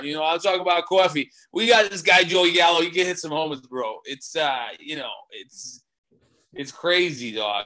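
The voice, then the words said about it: Put-on New York accent. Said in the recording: “I'm going to do my New York accent now.”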